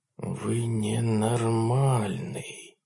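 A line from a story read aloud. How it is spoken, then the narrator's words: Whispered repetition. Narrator (Russian): повторил Гаупман на сей раз шепотом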